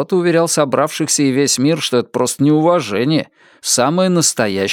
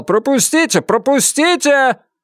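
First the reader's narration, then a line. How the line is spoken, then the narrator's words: Shouting. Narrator (Russian): Кто-то кричал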